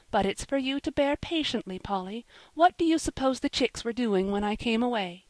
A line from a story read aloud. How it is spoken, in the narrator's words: said the minister's wife, soothingly